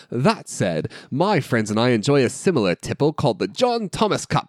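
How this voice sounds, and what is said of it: Put-on British accent. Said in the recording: “I should read this in a British accent.”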